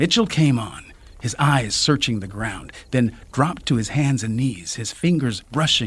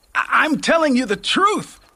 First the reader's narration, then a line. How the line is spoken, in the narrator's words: Mitchell screamed